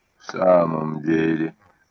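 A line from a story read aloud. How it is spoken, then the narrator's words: Muttered. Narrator (Russian): пробормотал Марсель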